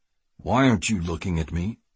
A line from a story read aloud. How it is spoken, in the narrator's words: Kiefer growled